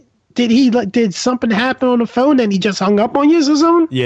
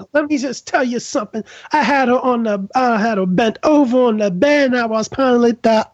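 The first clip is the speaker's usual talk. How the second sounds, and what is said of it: Andrew Dice Clay impression. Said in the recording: “I do a good Andrew Dice Clay impression.”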